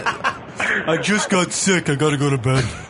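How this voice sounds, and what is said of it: Imitates another person's voice. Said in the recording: “that is such a bad impersonation of me. ... I do not sound like that. ... it's the same exact impression as Kristen Stewart.”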